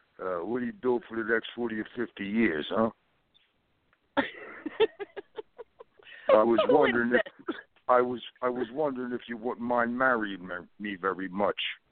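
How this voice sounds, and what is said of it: Impression of a movie boxer. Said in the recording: “That was my impression of Rocky Balboa.”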